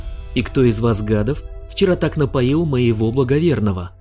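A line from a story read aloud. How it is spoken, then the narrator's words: Abrupt, sharp start. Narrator (Russian): резко взяла старт она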